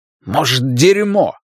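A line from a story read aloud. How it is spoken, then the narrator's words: Angry curt remark. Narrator (Russian): зло бросил Ларри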